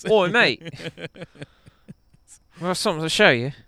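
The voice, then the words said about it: Put-on Australian accent. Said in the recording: “tell if this is a good accent or not”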